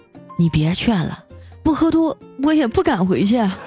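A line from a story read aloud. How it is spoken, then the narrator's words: Sighing. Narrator (Chinese): 调调叹了口气说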